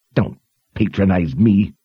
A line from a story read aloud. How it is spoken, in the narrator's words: Gilly growled